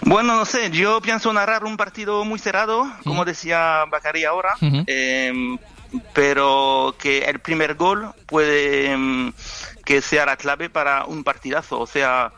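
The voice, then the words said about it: French accent mixed with Andalusian. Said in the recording (Spanish): “El francés, acento andaluz, es una buena mezcla”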